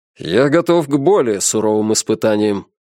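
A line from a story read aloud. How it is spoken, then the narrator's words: Gloomy declaration. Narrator (Russian): заявил капитан мрачно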